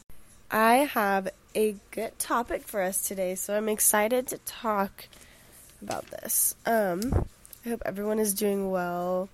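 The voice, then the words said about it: Voice sounds sick. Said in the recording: “I've been so sick, and I'm sure you can still hear it in my voice.”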